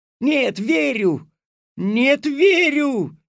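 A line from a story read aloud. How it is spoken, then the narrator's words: Hurt shouting. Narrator (Russian): с обидой закричал Алёшка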